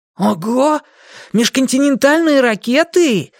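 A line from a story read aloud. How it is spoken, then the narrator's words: Excited exclamation. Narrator (Russian): воскликнул Дэйви, возбужденно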